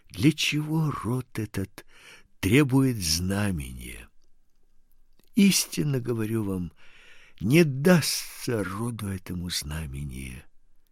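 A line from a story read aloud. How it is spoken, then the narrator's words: Sighing deeply. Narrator (Russian): глубоко вздохнув, сказал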